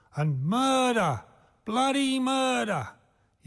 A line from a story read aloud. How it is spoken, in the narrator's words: yelled the man from Ironbark